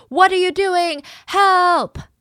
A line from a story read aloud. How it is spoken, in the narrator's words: the last scream